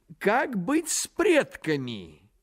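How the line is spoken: Exclamation. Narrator (Russian): воскликнул Находчивый

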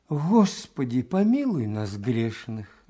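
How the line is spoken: Sighing. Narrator (Russian): вздохнул благолепный Сергей Сергеевич

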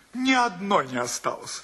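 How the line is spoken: Host's good-natured laughing reply. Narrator (Russian): ответил гостеприимный хозяин, добродушно смеясь

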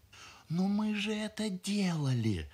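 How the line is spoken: Bride's desperate whisper. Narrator (Russian): отчаянно шепнула ему невеста

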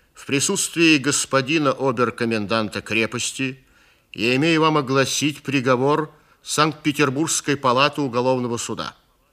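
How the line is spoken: Distinct tense bass. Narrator (Russian): отчетливо заговорил он напряженным басом

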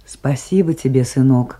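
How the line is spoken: Affectionate. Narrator (Russian): ласково сказала Майсарат

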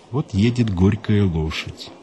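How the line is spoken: Sad joke. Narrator (Russian): Ахматова грустно пошутила

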